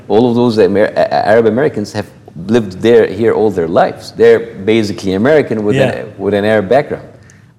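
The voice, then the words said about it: Strong Egyptian Arab accent. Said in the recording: “I'm the only true Arab here ... I don't need to imitate a bad accent because I have a bad accent ... I lived all my life in Egypt”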